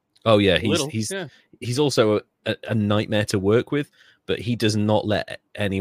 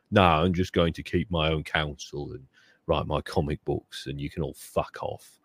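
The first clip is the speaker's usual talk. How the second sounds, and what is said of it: Impression of Alan Moore. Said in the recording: “my Alan Moore impression”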